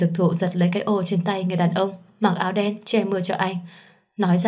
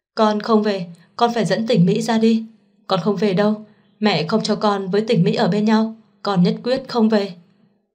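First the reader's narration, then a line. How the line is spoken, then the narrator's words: Desperate screaming in rain. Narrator (Vietnamese): Dực Thụ ... xông vào màn mưa gào lên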